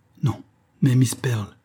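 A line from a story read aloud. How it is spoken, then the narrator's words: Stammered. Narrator (French): balbutia James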